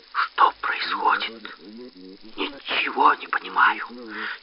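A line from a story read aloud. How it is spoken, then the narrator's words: Quiet exclamation. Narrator (Russian): Тихо воскликнул отец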